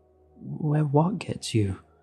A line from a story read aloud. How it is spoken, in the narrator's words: I asked, my voice shaking